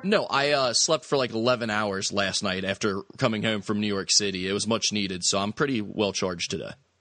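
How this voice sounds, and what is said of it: Slightly hoarse voice. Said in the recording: “my voice is a little hoarse after that whole UConn-UC debacle”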